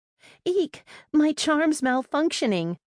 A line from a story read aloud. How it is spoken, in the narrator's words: squeaked